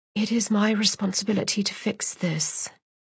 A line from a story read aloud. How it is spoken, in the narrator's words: she whispered